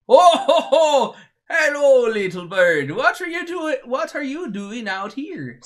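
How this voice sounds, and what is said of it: Put-on Canadian Swedish accent. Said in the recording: “always end up running a little more to the wrong accent there ... He's the Canadian Swedish.”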